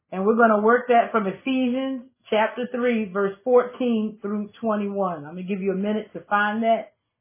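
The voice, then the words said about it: Slightly raspy voice. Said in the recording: “My voice is a little raspy this morning.”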